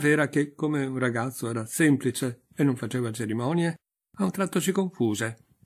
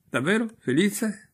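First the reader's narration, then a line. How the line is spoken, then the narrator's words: Prince asking lively, laughing. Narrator (Italian): domandò il principe con vivacità, ridendo allegramente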